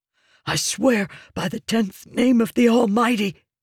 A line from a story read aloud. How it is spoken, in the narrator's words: the assassin whispered, cowering